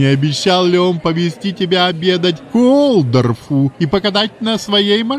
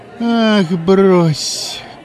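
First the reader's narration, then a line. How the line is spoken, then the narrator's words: Weary dismissal. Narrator (Russian): устало отмахнулась Мэйзи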